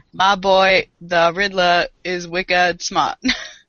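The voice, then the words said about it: Poor put-on Boston accent. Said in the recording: “Did that come across as Boston? ... That was terrible. ... Your Boston accent is as close to being Boston as it is to being a leprechaun.”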